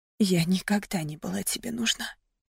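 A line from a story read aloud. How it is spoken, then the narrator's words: Quiet breathy exhale. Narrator (Russian): тихо выдохнула я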